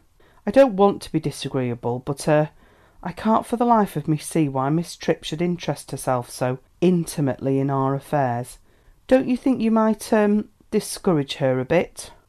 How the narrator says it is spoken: Elizabeth sighed reminiscently

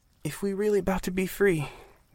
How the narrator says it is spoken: Miss Maddie began in a shaky voice

